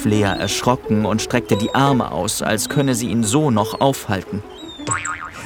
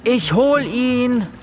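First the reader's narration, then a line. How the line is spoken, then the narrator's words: Calling out. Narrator (German): rief er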